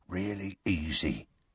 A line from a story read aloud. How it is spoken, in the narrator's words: he said softly